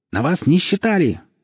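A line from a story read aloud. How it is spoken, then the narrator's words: Shrill voice behind wall. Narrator (Russian): послышался из-за стены визгливый голос Черпака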